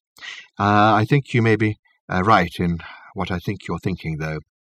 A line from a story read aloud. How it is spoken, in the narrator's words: he added quietly